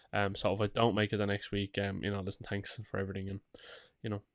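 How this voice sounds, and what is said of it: Sick, under-the-weather voice. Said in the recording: “I'm still a little under the weather ... You'll probably hear it in my voice. ... I have a touch of man flu”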